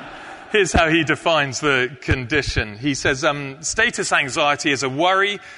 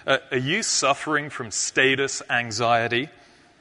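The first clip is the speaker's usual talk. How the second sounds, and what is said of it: Put-on American accent. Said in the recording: “It sounds better in an American accent, I think ... Maybe it doesn't”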